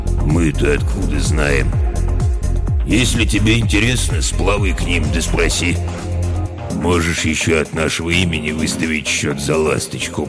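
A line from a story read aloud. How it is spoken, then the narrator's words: Booming drone. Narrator (Russian): прогудел Ок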